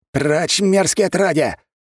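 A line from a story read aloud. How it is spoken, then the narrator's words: Ragged man's shout. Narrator (Russian): выкрикнул мужчина в лохмотьях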